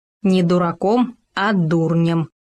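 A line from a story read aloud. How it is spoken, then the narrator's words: Stern correction. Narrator (Russian): строго поправил Хома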